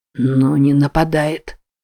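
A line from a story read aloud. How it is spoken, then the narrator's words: Trembling voice. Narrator (Russian): дрожащим голосом произнес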